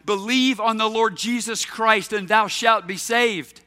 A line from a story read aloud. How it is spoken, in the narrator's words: John Harper shouted back